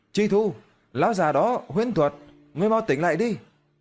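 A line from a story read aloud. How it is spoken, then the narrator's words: Urgent call. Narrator (Vietnamese): Lý Tuyết kêu lên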